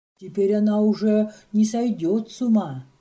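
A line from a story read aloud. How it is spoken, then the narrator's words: Strained tearful whisper. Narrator (Russian): Сестра Мария тщетно пытается говорить спокойно и отвечает шепотом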